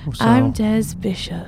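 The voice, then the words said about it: Impression of Des Bishop. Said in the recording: “That's my impression of you.”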